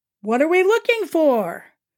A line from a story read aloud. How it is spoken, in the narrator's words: Warren asks playfully